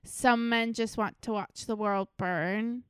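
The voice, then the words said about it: Imitates another person's voice, badly. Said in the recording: “I tried to do my best Michael Caine impression ... And it's really, really bad ... my Michael Caine accent”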